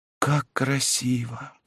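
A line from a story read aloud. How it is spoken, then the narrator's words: Excited whisper. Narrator (Russian): прошептала Жанна, вся взволнованная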